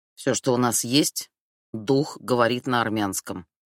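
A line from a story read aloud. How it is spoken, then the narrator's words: Grumbling. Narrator (Russian): проворчал Хамид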